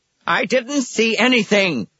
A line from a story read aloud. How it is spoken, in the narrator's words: Billings screamed suddenly, and the words poured out as if a black cork had been pulled from the bottom of his soul